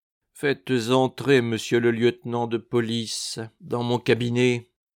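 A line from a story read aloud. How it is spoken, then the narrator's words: Commanding. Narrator (French): ordonna Louis XV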